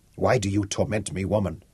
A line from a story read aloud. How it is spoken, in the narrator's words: he asked